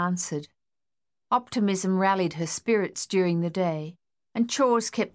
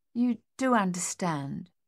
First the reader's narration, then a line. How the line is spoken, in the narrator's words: she said more gently